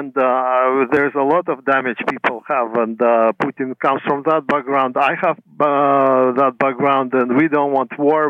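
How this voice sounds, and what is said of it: Former Soviet accent in English. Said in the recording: “by your accent, I think you come from that part of the world? ... I'm from Soviet Union in the past.”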